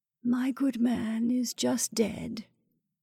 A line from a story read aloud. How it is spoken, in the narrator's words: breathed the woman lowly